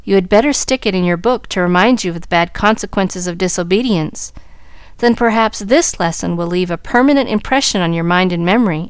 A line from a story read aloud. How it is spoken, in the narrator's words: answered Mrs